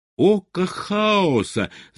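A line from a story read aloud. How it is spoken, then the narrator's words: Shouted. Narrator (Russian): закричал он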